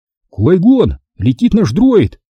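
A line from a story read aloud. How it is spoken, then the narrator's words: Shout. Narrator (Russian): крикнул Оби-Ван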